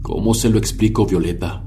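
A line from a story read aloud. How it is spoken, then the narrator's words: Broken voice. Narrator (Spanish): preguntó con la voz rota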